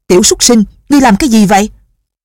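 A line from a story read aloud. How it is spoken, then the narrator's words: Furious shout. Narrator (Vietnamese): Lão cả giận quát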